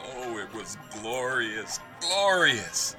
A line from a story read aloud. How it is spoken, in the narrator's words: Scrooge laughed again and called downward